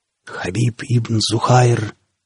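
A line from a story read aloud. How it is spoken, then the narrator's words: Sudden hoarse whistling voice. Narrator (Russian): внезапно донесся хриплый с противным подсвистом голос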